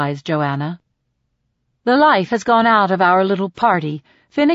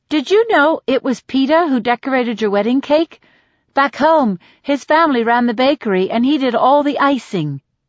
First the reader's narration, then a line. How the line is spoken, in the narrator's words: says Deli brightly